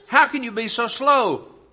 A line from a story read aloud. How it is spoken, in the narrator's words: cried